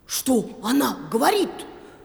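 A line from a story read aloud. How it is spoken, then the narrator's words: Indignant dog barking. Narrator (Russian): в негодовании рявкнул пес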